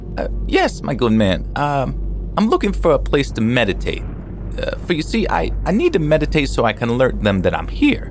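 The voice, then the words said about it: Squeaky high-pitched character voice. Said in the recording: “He said in a squeaky voice,”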